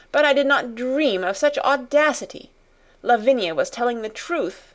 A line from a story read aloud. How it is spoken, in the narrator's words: she exclaimed